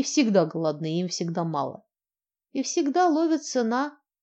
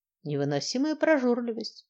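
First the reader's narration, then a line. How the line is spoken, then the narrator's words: Calm. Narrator (Russian): спокойно ответил Илья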